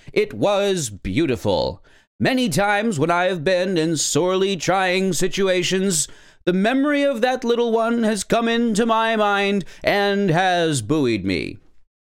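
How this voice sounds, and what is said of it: Martin Luther King Jr. impression. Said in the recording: “my MLK imitation”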